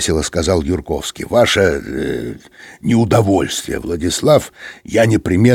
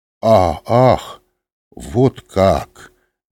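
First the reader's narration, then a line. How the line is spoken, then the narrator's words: Slow. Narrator (Russian): медленно сказал он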